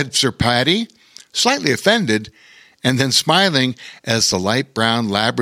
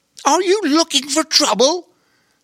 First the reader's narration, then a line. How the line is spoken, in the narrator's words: said Lady Poppy, indignantly